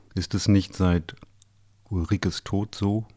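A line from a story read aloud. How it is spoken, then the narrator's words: Quiet question. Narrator (German): fragte leise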